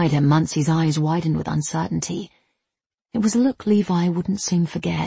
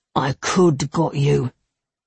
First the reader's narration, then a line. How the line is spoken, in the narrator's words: Levi barely recognized his own voice as he growled